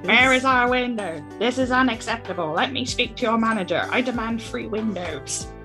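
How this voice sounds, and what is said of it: Demanding Karen-style voice. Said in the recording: “put on my best Karen voice”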